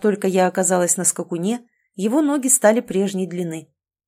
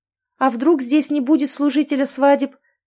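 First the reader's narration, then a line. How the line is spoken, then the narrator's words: Loud shout. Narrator (Russian): прокричала я погромче, чтобы быть услышанной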